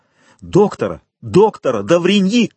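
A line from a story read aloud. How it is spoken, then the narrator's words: Shout. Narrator (Russian): крикнул Вильфор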